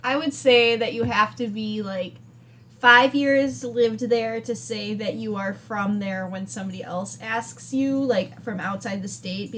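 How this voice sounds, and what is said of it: Regional American accent. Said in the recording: “Okay, do you not hear your accent right there?”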